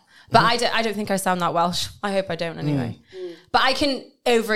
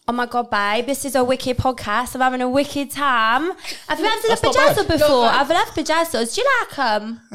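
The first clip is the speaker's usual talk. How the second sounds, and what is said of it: Put-on Essex accent. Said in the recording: “I can do a really good Essex accent ... Go and do Essex. ... That sounds really good.”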